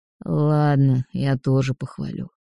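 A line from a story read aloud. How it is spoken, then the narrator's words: Grumbling. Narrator (Russian): проворчал Кронор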